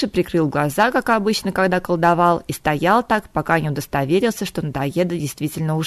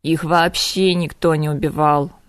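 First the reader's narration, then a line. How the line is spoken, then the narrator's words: Grim reply. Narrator (Russian): мрачно отозвался Кайден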